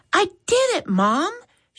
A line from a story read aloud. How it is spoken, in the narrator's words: she exclaimed with a pleased look